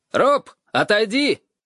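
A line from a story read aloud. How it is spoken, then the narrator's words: Shout. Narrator (Russian): крикнул он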